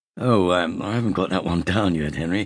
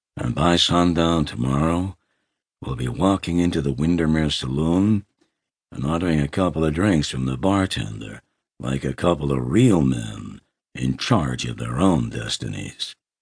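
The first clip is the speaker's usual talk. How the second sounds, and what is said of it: Drawling John Wayne impression. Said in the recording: “Give me someone easier to impersonate. How about John Wayne? ... he drawled”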